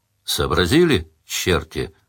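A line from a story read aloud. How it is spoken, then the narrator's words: Weary question. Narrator (Russian): устало спросил Сварог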